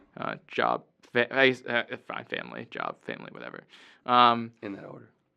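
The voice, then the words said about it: Strained, fading voice. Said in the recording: “I'm losing my voice, listeners.”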